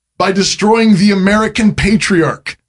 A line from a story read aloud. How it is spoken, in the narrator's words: they cried exuberantly